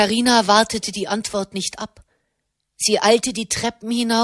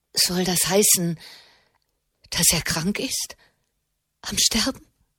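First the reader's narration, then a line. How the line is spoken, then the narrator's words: Trembling voice. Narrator (German): fragte Alessia mit zitternder Stimme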